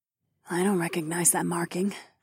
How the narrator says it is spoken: Lyca murmured

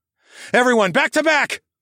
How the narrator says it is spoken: I yelled

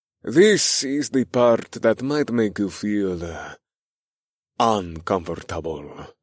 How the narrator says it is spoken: he sighed

